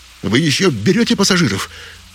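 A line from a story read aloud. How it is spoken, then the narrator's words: Shouting through window. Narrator (Russian): крикнул Джилсон через боковое окно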